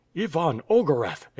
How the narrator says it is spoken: exclaimed the Grand Duke

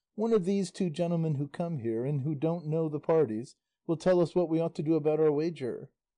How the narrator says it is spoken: a peasant called out

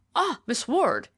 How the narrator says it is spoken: he exclaimed

